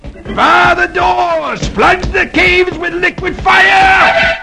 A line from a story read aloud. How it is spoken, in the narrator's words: flees, shouting to the guards at the entrance